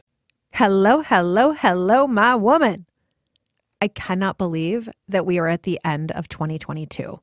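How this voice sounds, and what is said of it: Slightly congested voice from cold. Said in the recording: “you might hear in my voice, I have a little bit of a cold”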